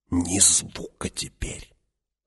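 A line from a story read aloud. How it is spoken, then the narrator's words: Whispered warning. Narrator (Russian): шепотом предупредил Фриман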